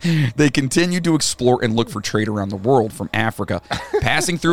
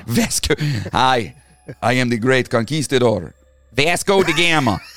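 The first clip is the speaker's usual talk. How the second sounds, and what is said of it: Minnesota-like accent. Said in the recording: “It's got like a Minnesota ... accent.”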